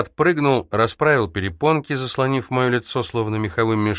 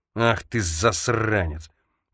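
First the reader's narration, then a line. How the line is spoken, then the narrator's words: Growling. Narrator (Russian): прорычал Рейчес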